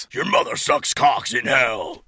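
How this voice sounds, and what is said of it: Deep voice. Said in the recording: “The crow shot back in a deep voice.”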